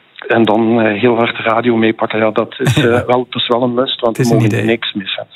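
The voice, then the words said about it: Light Limburg Flemish accent. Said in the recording (Dutch): “Ik hoor een licht Limburgs accent”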